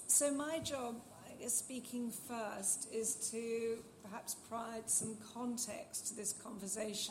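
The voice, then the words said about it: Hoarse, failing voice. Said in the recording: “As you can hear, my voice has gone slightly AWOL”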